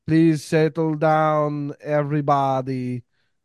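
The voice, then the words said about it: Transylvanian accent like Nandor. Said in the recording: “some guy in an accent ... Nandor from What We Do in the Shadows. Fucking Transylvanian ass accent”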